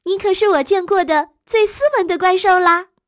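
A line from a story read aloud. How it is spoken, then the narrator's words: Admiring woman. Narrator (Chinese): 眼镜店的服务员小姐赞叹地说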